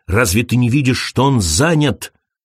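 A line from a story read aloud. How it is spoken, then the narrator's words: Snapping retort. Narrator (Russian): огрызнулся он на Крейга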